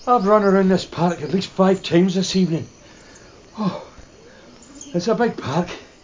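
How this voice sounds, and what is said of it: Breathless, out-of-breath speech. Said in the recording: “I'm out of breath. Oh, I'm out of breath.”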